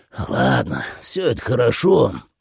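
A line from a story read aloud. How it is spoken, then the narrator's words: Sighing. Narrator (Russian): вздохнул Джуфин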